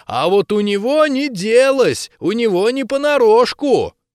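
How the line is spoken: Shout. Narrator (Russian): он крикнул

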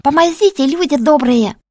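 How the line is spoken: Yelling from darkness. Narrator (Russian): Завопили из темноты

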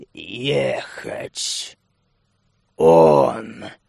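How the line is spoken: Creaky old voice. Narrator (Russian): маг проскрипел

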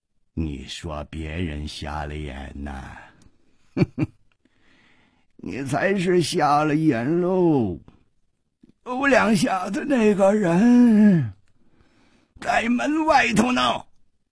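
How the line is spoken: Cold. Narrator (Chinese): 掌柜的冷冷地说

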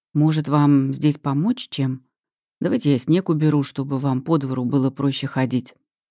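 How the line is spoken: Even voice. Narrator (Russian): ровным голосом прерывает паузу Слава

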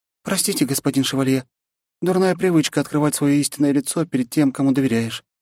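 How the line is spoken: Sighing. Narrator (Russian): вздохнула Минами

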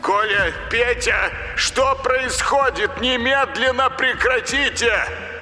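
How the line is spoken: Shouted over loudspeaker. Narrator (Russian): закричал по громкой связи Виктор

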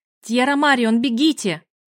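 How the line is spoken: Female shout. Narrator (Russian): Я прокричала

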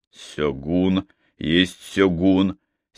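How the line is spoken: Angry. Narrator (Russian): сердито сказал Йоси

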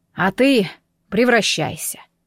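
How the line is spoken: Sighing. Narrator (Russian): вздохнул он

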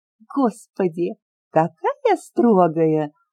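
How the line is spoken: Laughing loudly. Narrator (Russian): хохотала Леля

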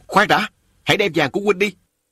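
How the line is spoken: Barked command. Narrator (Vietnamese): quát bảo

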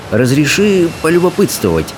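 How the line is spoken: Very casual tone. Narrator (Russian): очень небрежным тоном заговорил рыбий ног

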